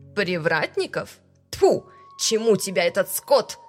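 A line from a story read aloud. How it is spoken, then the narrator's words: Spitting, spiteful. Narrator (Russian): Сплюнула наставница, злобно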